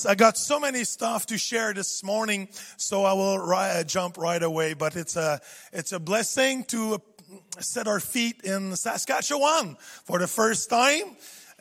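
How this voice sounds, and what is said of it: French accent in English. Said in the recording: “my French accent ... In French, we don't know what to do with the H sound ... add a H or drop a H”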